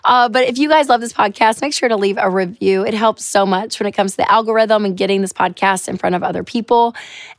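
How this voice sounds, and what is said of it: Hoarse, partly lost voice. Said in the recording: “My voice is just a little crazy. I lost it. It's coming back. But yeah, this is how I'm going to sound”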